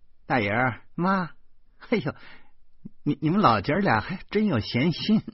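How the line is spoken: Laughing. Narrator (Chinese): 老婆哈哈笑着说

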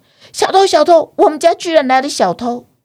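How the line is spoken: Nervous shout. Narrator (Chinese): 小宝紧张的大喊

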